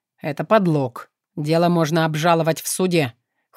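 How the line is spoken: Cold. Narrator (Russian): холодно проговорил Шахов

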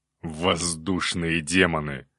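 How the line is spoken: Growled. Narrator (Russian): зарычал Илья

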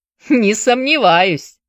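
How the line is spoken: Laughing. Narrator (Russian): засмеялся Вендел

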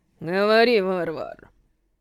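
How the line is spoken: Old man through gritted teeth. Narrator (Russian): Старик процедил сквозь зубы

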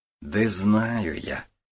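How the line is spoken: Quiet, snapping. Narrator (Russian): тихо огрызнулся Гуров

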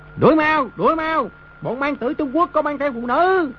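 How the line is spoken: Lustful group cheering. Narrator (Vietnamese): Đám quân tướng lửa dục bừng lên, cùng reo hò

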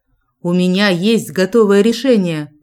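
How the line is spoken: Booming bass. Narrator (Russian): громыхнул басом Джек

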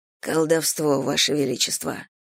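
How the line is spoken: Quiet answer. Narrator (Russian): тихо ответил за него Ли

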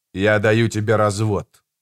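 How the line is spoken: Cold. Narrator (Russian): сказал он холодно

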